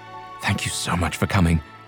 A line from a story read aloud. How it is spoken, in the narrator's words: he whispered in her ear